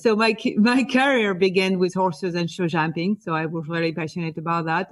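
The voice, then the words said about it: French accent. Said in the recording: “I am from France, as my accent can tell”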